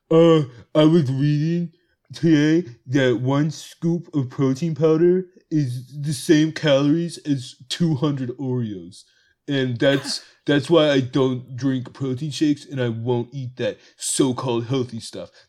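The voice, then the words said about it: Impression of a roommate. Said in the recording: “I'm gonna do my best impression of her”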